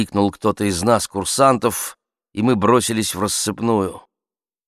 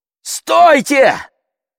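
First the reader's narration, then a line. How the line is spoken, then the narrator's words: Shout to everyone. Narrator (Russian): крикнул я всем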